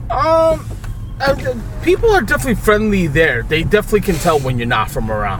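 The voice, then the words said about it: Brooklyn accent. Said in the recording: “I don't know if my accent is that terrible like a Brooklyn accent”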